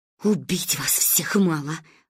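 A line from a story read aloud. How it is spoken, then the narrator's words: Mother hissing. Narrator (Russian): прошипела мама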